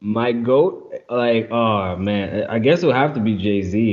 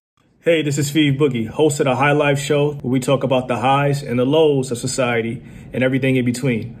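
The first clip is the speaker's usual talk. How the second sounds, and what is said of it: Polished radio host voice. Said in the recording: “I love your radio voice”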